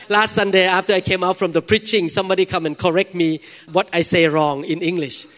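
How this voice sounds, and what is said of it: Thai-accented English. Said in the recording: “God used a Thai man to preach the gospel here ... thank God for my accent so that you have to listen carefully”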